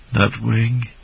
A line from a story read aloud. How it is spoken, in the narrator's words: Jangler breathed a sigh of relief